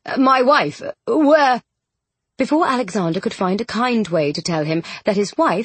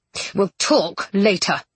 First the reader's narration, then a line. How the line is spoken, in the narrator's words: Rochester hissed